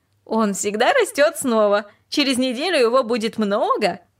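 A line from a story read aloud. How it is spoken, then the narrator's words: Laughing. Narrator (Russian): рассмеялась и сказала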